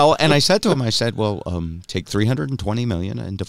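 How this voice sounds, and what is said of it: Usual voice. Nothing is said of it.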